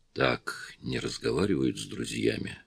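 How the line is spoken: Quiet. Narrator (Russian): Гарри тихо сказал

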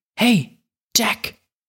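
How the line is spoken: Whispering, female. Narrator (German): flüsterte sie

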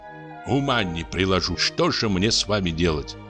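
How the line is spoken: Plain. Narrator (Russian): сказал он

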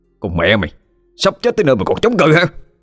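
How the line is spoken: Loud angry shout. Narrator (Vietnamese): Thằng bên cạnh quát lớn

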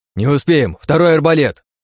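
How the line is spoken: Barked. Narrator (Russian): Рявкнул я на Лию

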